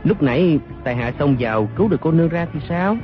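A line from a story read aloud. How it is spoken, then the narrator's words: Smiling. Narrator (Vietnamese): Đoàn Dự mỉm cười nói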